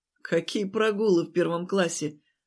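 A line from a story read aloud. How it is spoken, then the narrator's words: Relieved laughter. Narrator (Russian): облегченно рассмеялся я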